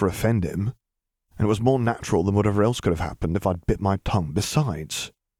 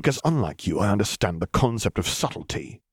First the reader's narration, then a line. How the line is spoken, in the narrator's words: he hissed back, just as cold